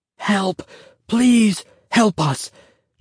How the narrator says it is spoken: Joseph whispered frantically

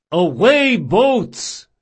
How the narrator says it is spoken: he yelled

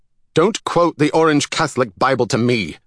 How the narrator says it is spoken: Salvador snapped

